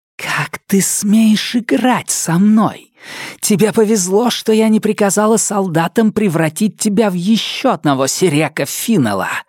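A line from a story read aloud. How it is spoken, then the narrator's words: Hissed. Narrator (Russian): прошипела она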